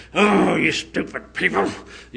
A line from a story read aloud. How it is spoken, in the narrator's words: he was groaning